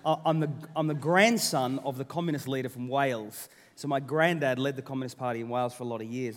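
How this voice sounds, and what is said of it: Australian accent. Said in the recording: “my accent's Australian ... Which is why I have the accent I do”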